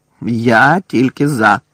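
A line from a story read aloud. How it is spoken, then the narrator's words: Growled. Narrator (Ukrainian): прогарчав Дикозор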